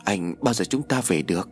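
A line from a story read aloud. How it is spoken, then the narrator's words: Trembling voice. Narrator (Vietnamese): Bách nói bằng giọng run rẩy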